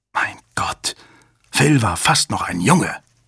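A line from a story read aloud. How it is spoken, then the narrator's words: Hissing. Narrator (German): zischte Hale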